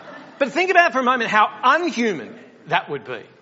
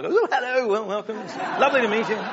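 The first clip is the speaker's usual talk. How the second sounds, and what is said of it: Put-on British accent. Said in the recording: “he's got a British accent. It sounds slightly intelligent.”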